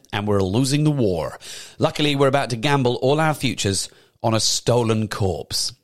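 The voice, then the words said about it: Put-on American accent. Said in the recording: “American accent”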